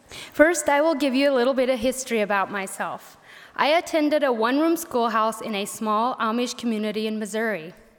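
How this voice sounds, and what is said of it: Southern-sounding Pennsylvania Dutch accent. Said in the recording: “she gets teased a lot for having a southern Pennsylvania Dutch accent ... when I speak English, they say I have a southern accent”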